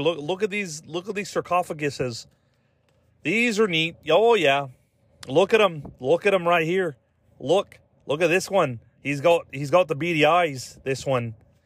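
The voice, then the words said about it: Put-on Canadian accent. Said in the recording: “that was a fucking spot-on Canadian accent”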